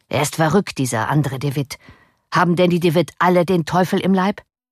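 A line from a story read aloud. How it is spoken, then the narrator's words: Calling out. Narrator (German): rief er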